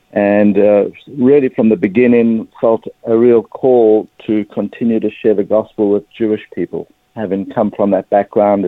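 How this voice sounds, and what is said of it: South African accent. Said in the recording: “as you can probably pick up pretty quickly from my accent, I'm a South African Jewish person.”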